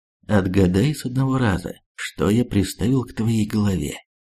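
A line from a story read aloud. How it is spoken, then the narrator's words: Calm voice. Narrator (Russian): спокойным голосом сказал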